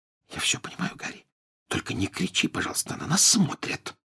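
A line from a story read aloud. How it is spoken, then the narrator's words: Whispered. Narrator (Russian): прошептала Гермиона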